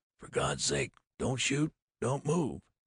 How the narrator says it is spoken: I whispered to Williams

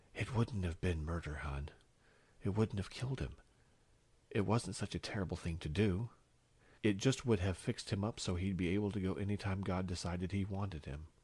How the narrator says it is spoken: She whispered in his ear

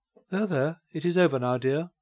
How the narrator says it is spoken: said her companion, kindly

